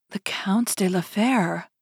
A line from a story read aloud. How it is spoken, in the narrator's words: murmured